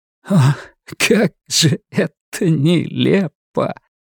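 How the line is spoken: Half laughing, half crying. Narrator (Russian): Ларри наполовину смеялся, наполовину плакал

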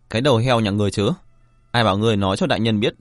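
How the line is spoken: Sudden anger. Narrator (Vietnamese): Vạn Trần đột nhiên tức giận nói

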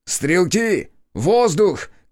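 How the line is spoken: Shout. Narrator (Russian): крикнул я

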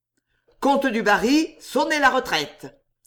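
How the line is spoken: Cold man's voice. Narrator (French): dit-il froidement

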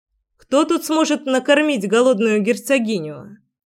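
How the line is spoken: Amused snort near the ear. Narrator (Russian): За ухом весело хмыкнул Гришка

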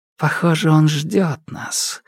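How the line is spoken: Quiet. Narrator (Russian): негромко заметил Итейн

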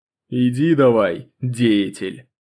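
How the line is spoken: Stern command. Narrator (Russian): строго скомандовал шеф

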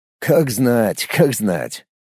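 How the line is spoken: Snorting. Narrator (Russian): хмыкнул Никитин

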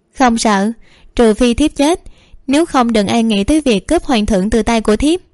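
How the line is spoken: Smiling, tender. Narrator (Vietnamese): Tự Cảm mỉm cười nói

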